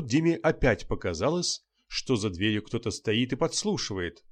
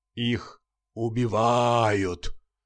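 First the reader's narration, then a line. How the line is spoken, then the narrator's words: Sepulchral sing-song voice. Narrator (Russian): загробным голосом пропел журналист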